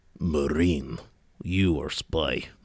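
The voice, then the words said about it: Put-on Russian accent. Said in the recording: “Don't be too impressed with my Russian accent. It's the only one I can do.”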